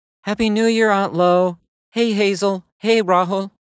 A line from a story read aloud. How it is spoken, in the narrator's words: May said in her bubbly voice